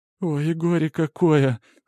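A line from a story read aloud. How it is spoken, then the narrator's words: Whining. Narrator (Russian): скулит Катька в потьмах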